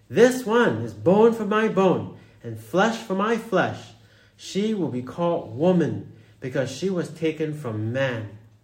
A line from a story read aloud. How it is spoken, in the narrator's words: the man exclaimed